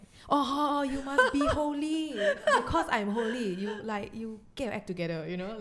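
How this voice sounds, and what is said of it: Singaporean accent when scolding. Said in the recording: “when you scold people, your Singapore accent, yeah, comes, yeah, out?”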